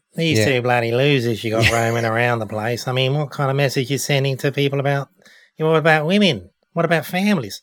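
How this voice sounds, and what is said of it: Put-on Australian accent. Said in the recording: “I'm going to do an Aussie accent.”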